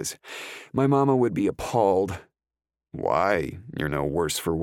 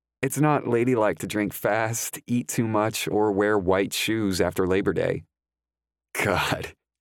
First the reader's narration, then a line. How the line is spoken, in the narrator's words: I laugh